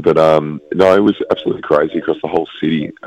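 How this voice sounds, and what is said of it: Rough, worn-out voice. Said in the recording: “hear from my voice, I'm a bit um, worse for wear after the weekend”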